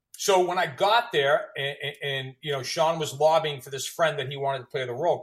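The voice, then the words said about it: Boston accent. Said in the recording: “you're the only one that really has a Boston accent”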